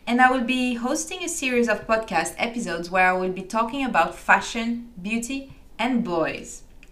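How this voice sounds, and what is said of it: French accent. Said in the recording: “I'm a Frenchie living in London, in case you didn't recognize my French accent.”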